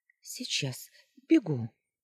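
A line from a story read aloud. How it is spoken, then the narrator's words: Squeak. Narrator (Russian): пискнула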